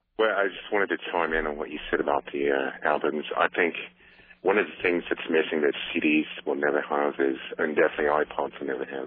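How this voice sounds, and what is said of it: Australian accent. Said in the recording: “a legitimate accent”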